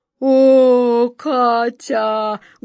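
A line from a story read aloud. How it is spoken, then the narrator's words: Deep rumbling. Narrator (Russian): густым голосом пророкотал Джин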